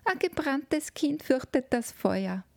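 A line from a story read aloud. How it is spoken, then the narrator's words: Calling from another room. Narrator (German): rief eine Stimme aus dem Spielzimmer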